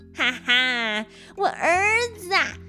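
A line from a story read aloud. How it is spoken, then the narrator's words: Laughing. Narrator (Chinese): 孙悟空就笑着说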